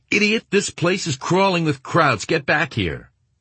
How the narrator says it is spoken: Winters was yelling at him

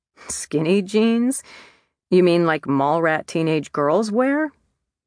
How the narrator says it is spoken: laughed

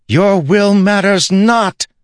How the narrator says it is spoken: Syl shouted

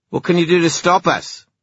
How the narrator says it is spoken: snapped Erek

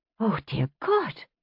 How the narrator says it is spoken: Amaranthus was panting

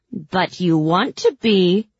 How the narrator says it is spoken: she jeered

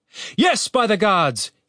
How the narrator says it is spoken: he shouted

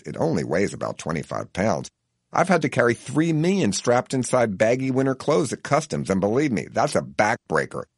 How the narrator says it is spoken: she scoffs mildly and says

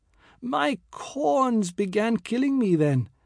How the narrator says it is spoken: said aloud

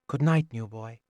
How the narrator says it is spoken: softly muttered

